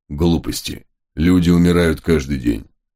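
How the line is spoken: Irritated mutter. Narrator (Russian): Уже с явным оттенком раздражения пробурчал великий волк

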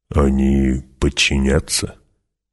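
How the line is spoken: Quiet question. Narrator (Russian): негромко спросил Гурни

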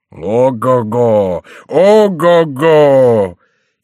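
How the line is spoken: Loud, window-rattling singing. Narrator (Russian): он запел громким голосом так, что в соседних домах задрожали окна

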